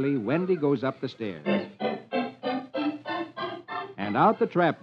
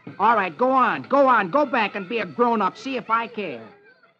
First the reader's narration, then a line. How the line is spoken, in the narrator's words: Peter snaps